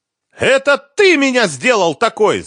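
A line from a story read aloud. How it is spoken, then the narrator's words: Shouting again. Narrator (Russian): снова закричала Лиза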